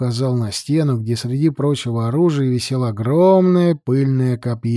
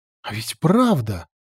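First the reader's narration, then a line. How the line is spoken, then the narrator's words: Exclaimed. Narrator (Russian): воскликнула Аличия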